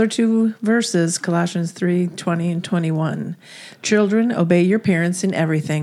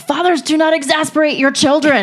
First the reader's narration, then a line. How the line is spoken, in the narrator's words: we would always yell